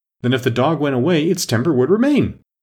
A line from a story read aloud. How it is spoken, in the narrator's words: the Queen exclaimed triumphantly